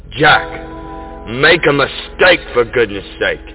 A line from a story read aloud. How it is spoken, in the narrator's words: I exclaim aloud